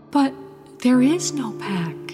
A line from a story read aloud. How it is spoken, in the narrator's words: she whispered to the weirwood